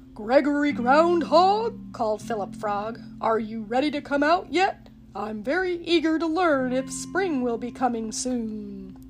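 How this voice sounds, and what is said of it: Deep, booming loud voice. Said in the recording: “Philip's deep voice boomed loudly.”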